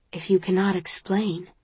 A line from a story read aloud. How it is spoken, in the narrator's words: he says softly